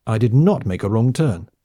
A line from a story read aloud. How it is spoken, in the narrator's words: the woman answered angrily